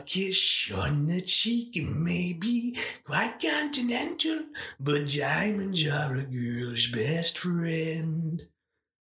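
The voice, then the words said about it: Imitates another person's voice. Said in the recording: “my Carol impression”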